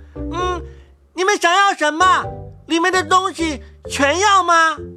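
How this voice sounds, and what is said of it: Loud shouting voice. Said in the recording (Chinese): “放开嗓门道 ... 又高声叫嚷道”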